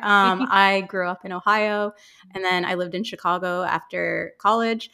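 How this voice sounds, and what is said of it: American accent. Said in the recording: “So I'm American, obviously very American accent here.”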